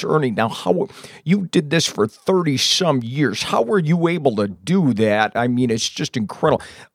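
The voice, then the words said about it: Imitates a sports radio host. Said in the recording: “my best impression ever is the sports guy in Lansing... he talks like this, and he's a sports radio show”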